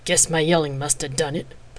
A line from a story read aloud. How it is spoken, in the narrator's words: Palladia muttered